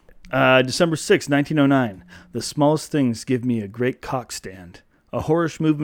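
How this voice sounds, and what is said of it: Usual voice. Nothing is said of it.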